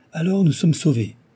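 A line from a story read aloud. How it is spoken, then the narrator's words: Joyful exclamation. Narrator (French): s'écria Archibald avec allégresse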